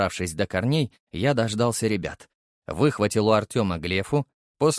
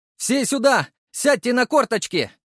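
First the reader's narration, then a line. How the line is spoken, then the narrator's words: Voice-cracking shout. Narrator (Russian): Срывая голос, крикнул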